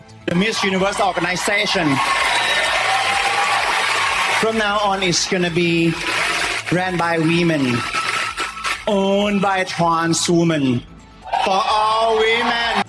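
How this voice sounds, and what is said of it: Heavy, hard-to-understand accent. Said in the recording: “if you couldn't understand through the accent”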